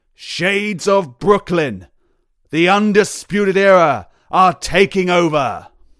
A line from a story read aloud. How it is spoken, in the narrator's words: Michael Cole bellowing